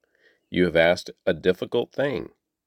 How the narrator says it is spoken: Elijah replied

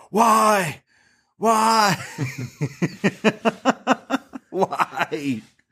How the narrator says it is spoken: he's just yelling

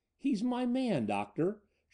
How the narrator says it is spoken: she sobbed bitterly

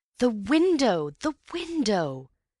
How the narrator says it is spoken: cried Antony

